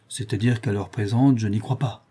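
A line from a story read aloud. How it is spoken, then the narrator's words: Young man, gruff reply. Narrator (French): répondit le jeune homme d'un ton bourru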